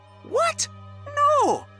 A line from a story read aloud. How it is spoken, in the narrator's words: cried Sophie